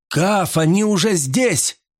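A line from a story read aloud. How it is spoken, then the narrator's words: Shouting. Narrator (Russian): закричал я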